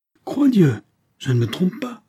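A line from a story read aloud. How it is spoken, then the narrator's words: King calling from afar. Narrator (French): s'écria le roi du plus loin qu'il l'aperçut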